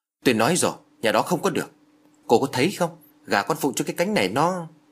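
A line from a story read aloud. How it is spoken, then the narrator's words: Irritated snapping. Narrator (Vietnamese): Thấy Út Nguyệt cứ một mực bênh vực cho nhà họ, bà Phủ gắt lên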